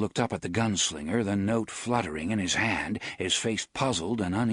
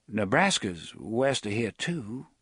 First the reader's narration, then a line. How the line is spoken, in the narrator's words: Susanna said hesitantly